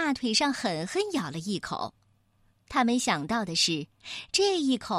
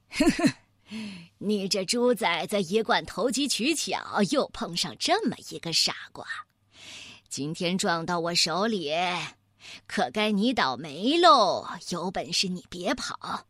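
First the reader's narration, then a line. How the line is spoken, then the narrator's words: Sneering. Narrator (Chinese): 月牙熊先生冷笑说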